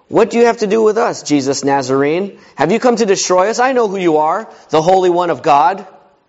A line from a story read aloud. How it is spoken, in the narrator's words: He cried out